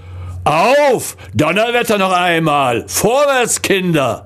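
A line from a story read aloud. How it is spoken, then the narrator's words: Powerful roar. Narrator (German): brüllte eine mächtige Stimme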